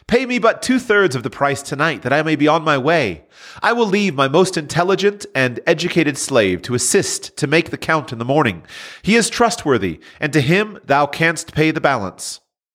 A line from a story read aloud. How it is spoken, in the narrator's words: he pleaded